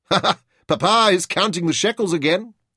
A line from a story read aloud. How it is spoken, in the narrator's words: he laughed to himself